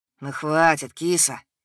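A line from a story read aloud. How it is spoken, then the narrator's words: Gentle. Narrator (Russian): мягко сказал Денис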